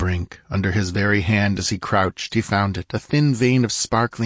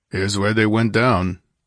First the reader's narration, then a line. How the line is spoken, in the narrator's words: he grunted